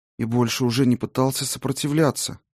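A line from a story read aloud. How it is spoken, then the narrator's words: Whisper. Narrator (Russian): прошептала она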